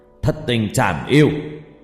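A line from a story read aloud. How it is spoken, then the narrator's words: Old person shouting. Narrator (Vietnamese): cụ hét lên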